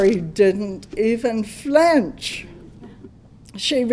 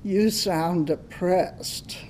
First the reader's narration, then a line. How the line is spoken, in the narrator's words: she said